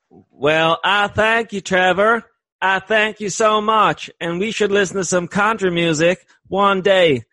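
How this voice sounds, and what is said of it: Weak attempt at country twang. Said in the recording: “You need way more twang, man. ... let me do my accents.”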